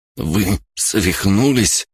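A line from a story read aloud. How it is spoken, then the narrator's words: Forced out. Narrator (Russian): выдавил Мэри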